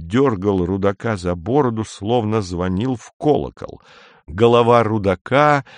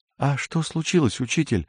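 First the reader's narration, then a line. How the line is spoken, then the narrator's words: Timid girl's question. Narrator (Russian): робко спросила какая-то девушка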